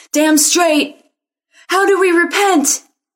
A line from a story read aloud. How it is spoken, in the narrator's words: Some of the crowd hollered back